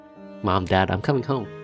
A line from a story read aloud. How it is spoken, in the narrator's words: she says, in sort of under her breath